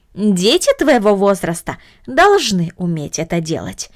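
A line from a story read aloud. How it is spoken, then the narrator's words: Plain. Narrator (Russian): сказала тетя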